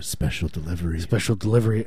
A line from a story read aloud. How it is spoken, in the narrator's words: you whisper